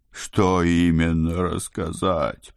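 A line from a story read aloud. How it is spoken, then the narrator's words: Groaning. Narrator (Russian): простонал Моро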